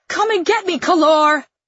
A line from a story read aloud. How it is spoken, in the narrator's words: I shout to him